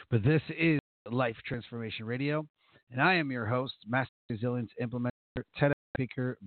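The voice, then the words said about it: Raspy, sick-sounding voice. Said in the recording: “got a raspy voice today ... I'm kind of under the weather ... I sound a little under the weather”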